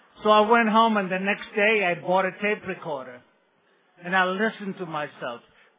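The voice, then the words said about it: Latino-accented English. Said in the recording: “I have accent? Yes, and it's adorable ... Did I have an accent? I sounded like Frito Bandido”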